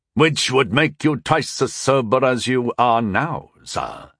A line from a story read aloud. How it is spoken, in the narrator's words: Sir Kay said with a cool sneer